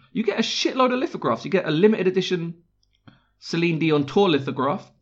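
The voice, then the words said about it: South London accent. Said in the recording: “it's difficult to say with a South London accent”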